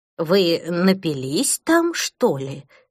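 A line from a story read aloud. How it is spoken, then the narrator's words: Plain. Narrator (Russian): спросила она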